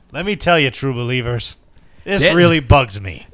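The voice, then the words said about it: Imitates another person's voice. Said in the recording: “terrible impression ... he does Stan rants”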